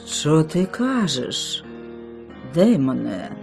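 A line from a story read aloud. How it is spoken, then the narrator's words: Agitated, eerie-toned question. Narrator (Ukrainian): запитала вона, зриваючись від хвилювання, проте ладним голосом і з моторошними нотками у ньому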